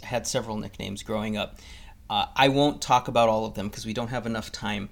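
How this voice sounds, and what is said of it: Mexican accent. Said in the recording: “I'm actually Mexican, if you couldn't tell from my accent”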